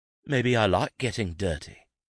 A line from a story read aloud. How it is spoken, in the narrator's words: he continued in a cooler tone